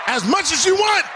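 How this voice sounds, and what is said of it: Raised, loud voice. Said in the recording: “raise my voice”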